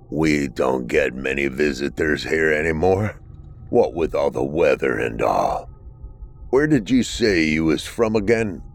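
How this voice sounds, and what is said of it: Raspy old man's voice. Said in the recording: “His voice was raspy”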